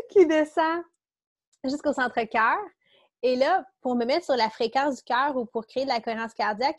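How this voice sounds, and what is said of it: Quebec French accent. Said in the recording (French): “c'est mon accent du Québec, ça.”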